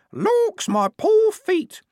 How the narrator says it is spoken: in varying tones of fingernail screech

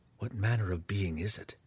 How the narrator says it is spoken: Driz whispered to Belwar

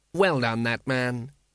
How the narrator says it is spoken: said the patrician thoughtfully

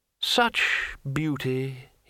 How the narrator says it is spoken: he murmured

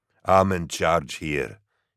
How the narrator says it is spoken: growled, his voice as deep and solid as his build, reverberative

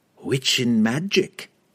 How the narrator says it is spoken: she cackled

